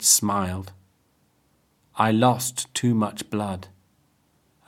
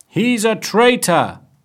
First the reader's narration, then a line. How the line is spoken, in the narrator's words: they shouted